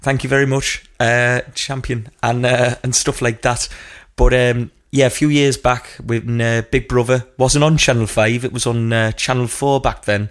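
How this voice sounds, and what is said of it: Broad northeast English Geordie accent. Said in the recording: “quite broad and accurate northeast accent ... True Geordie”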